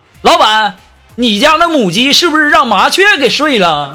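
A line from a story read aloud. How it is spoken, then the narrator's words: Hot-tempered shout. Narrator (Chinese): 苏木一贯是暴脾气呀，立刻就喊了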